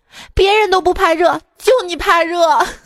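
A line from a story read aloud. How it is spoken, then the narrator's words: Woman sobbing loudly. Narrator (Chinese): 老婆哭得更大声了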